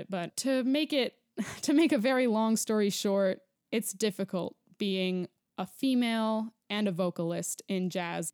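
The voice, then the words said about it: Emotional, wavering voice. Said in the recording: “you can probably hear in my voice I'm getting emotional”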